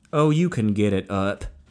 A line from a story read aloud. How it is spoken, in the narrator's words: Meat answered